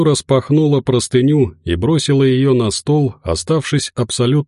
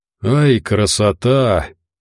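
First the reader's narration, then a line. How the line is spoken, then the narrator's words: Admiring exhale. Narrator (Russian): не выдержав, восхищенно выдохнул Упырь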